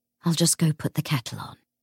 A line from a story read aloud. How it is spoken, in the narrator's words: James sighed